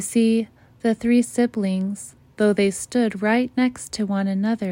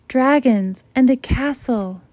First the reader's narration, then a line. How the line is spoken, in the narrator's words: shouts Lincoln